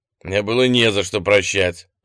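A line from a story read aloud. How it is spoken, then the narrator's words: Growl. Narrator (Russian): рыкнул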